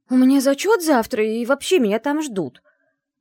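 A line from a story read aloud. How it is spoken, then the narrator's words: Exclamation. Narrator (Russian): воскликнула я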